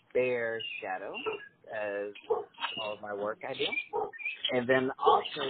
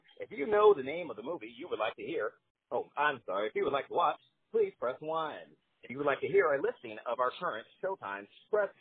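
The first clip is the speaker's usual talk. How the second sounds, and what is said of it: Automated phone-line announcer voice. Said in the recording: “my radio voice and bring back the movie phone ... the movie phone voice”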